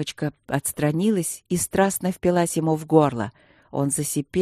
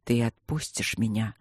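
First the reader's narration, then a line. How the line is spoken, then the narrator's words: Quiet question. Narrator (Russian): спросил он тихо у змеи-стражницы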